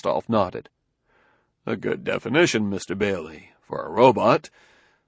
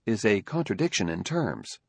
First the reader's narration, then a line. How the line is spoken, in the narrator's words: Daniil evenly